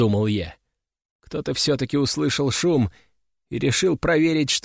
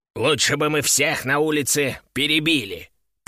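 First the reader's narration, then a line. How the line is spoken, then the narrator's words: Grumbling. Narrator (Russian): проворчал Кеша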